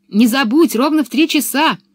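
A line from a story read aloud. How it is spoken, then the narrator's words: Distant shout. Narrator (Russian): уже издали крикнула Анника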